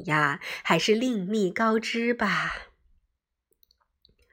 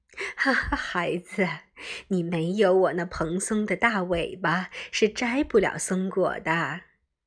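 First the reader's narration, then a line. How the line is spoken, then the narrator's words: Amused, smiling. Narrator (Chinese): 松鼠笑了笑说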